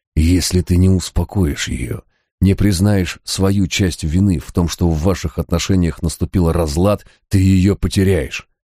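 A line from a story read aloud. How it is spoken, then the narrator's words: Fierce whisper. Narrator (Russian): свирепо зашептал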